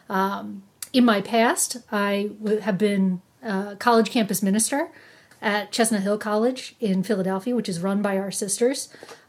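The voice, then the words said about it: New Jersey accent, long A's. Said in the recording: “I originally hail from New Jersey, which you can probably tell from my accent, long A's, just that New York, Philadelphia twang”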